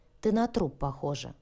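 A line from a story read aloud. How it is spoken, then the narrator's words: Grumbling. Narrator (Russian): проворчала Лия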